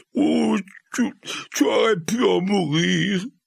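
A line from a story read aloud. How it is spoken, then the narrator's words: Sobbing. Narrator (French): répéta Hagrid, le corps agité de sanglots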